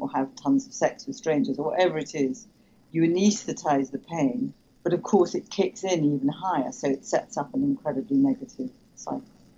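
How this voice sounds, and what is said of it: English accent. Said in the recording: “I think it's an English accent”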